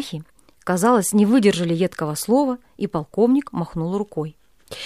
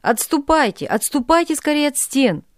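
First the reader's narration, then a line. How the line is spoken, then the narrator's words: Commander shouting. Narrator (Russian): закричал кошевой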